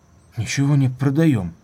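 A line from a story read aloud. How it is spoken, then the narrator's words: Weary and oddly frightened. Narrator (Russian): сказал он утомленно и почему-то испуганно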